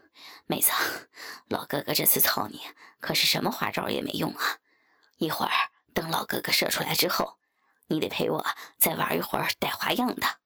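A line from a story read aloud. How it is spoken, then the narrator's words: Tired, panting speech. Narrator (Chinese): 王左琳已经有些累了，气喘吁吁地说道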